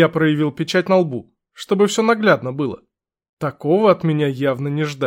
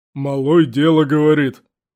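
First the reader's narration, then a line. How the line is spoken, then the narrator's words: Sudden booming boar voice. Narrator (Russian): внезапно прогудел кабан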